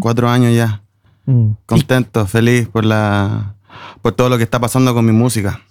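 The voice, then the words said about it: Chilean Spanish accent. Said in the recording (Spanish): “esto se oye con acento chileno.”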